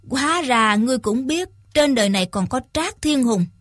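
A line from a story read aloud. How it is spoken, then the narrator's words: Smiling blind old man. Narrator (Vietnamese): Lão già mù mỉm cười, nói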